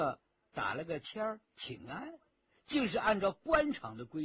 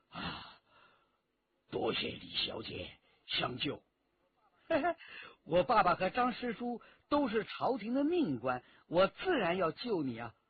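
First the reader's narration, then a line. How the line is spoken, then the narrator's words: Breathless. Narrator (Chinese): 张兆仲 喘了一口长气，对李元直说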